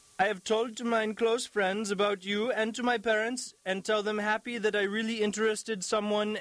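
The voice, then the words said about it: Feminine Russian accent. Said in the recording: “in a feminine Russian accent ... I may not do a Russian accent very well”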